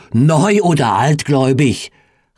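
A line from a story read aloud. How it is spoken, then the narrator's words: Call. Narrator (German): rief er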